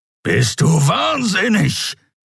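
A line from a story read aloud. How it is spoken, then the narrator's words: Growling. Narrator (German): knurrte der Skria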